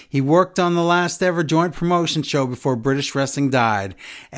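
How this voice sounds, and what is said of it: Poor put-on Texas accent. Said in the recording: “I'm reading this with a Texas accent, and that's not a good one”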